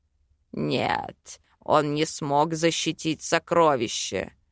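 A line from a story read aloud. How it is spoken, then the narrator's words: Growling demon. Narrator (Russian): рыкнул мой демонюка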